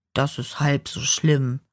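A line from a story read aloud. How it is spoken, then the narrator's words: Plain. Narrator (German): sagte der Hirt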